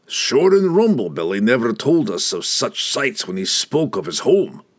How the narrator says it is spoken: Brunner grumbled, pulling his cloak over his face

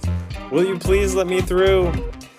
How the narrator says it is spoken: Pleading

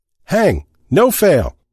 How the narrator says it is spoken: someone shouted

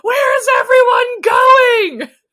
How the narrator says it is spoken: Sydney just kind of half sits up and screams

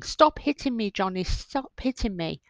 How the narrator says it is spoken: Heard shouting and screaming

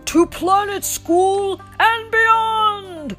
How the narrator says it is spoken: Buzz shouted

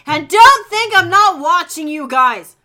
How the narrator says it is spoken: Willow yelled from the hall

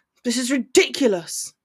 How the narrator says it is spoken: he growled

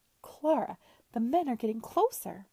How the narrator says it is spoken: couldn't help exclaiming

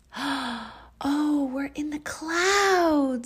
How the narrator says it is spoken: Zandra cried

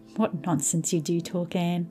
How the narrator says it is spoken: laughed Diana

